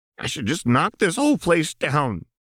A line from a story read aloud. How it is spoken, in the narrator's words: Jinx spat